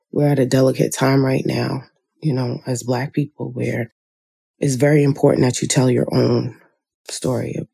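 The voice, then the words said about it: Groggy morning voice. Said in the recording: “in my lovely morning voice.”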